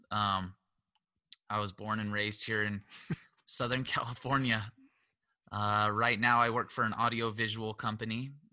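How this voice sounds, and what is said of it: Slightly hoarse voice. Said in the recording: “Just getting over a cold, so my voice is still a little bit hoarse.”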